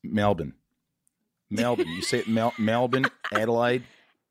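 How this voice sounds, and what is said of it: Impressive put-on Australian accent. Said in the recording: “It's really bloody hard to do an Australian accent. That was very impressive.”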